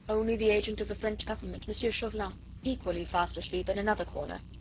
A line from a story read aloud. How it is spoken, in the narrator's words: he said